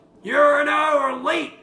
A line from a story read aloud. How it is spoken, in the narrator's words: shouts out ... in the distance and yells